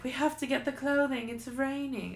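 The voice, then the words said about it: Fancy put-on accent. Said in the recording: “I don't know why I did an accent. But it's very fancy.”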